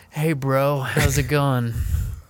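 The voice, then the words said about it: Casual bro-style impression of acquaintance. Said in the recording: “your best Wayne impression? ... that's pretty spot on”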